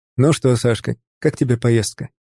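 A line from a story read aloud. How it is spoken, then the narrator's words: Plain. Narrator (Russian): спросил я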